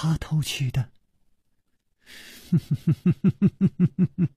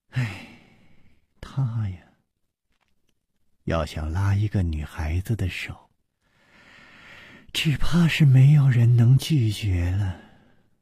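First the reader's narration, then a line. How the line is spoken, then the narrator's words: Sighing. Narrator (Chinese): 苏蓉蓉叹道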